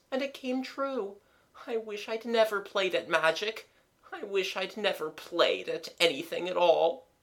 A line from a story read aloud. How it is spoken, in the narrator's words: moaned the voice